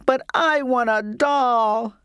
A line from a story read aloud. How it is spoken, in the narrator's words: I sobbed